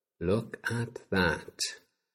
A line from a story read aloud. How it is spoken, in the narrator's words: Olivia breathed